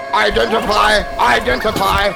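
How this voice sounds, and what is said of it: Screaming robotic mechanical voice. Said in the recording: “screaming in a mechanical voice”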